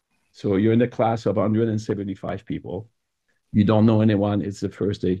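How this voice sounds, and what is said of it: French accent. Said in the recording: “you have a French accent.”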